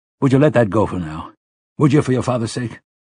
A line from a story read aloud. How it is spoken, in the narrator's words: Roland asked sharply